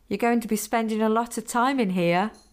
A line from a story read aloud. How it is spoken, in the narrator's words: Michelle said, laughing again